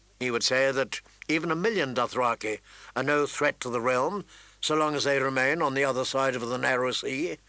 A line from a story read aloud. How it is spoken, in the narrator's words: Ned replied calmly